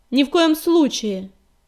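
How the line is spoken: Loud reply. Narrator (Russian): громко ответила она

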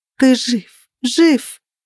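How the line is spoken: Sobbing, hiccuping repetition. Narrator (Russian): Я не могла остановиться и повторяла эти слова снова и снова, хотя уже начала икать от рыданий

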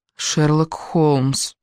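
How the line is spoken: Gloomy. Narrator (Russian): мрачно произнесла

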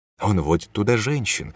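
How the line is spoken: Disapproving whisper. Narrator (Russian): шептала подружка, всем своим видом выражая осуждение

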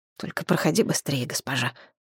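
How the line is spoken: Embarrassed mutter. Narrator (Russian): смущенно пробормотал

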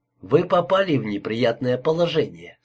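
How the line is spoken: Plain. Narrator (Russian): сказал я

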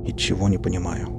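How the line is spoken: Mutter. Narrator (Russian): пробормотал я

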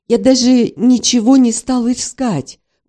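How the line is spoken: Breathy exhale. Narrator (Russian): выдохнул

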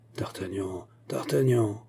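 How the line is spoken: King murmuring. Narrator (French): murmura le roi

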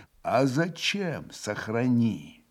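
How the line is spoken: Spiteful whisper. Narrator (Russian): Все тем же шепотом продолжал Иван, злобно скривив лицо

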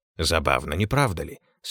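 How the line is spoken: Calm, relaxed. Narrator (Russian): сказал Чапман, спокойно и расслабленно

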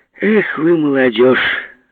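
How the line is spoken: Laughing old woman. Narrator (Russian): засмеялась старуха

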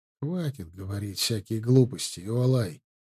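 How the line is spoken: Tired plea. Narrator (Russian): Все тем же усталым голосом попросил Ард

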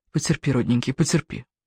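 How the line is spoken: Whisper. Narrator (Russian): шепот

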